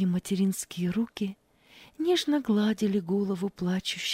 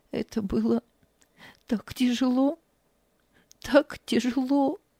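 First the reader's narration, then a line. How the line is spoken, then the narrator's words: Tearful. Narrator (Russian): Ева сквозь слезы произнесла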